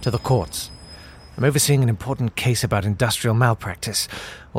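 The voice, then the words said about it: Soft-spoken RP English accent. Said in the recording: “non-German accent? ... I do soft-spoken RP.”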